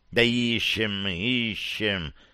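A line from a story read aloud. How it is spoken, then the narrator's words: Mutter. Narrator (Russian): пробормотал Гимли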